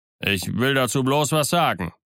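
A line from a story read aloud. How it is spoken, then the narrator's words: Old sailor calling out. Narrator (German): rief der alte Matrose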